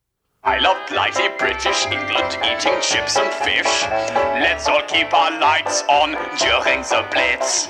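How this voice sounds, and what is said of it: Unconvincing British accent sounding German. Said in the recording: “the guy doesn't sound that British ... that sounds German ... I don't think he is from Britain”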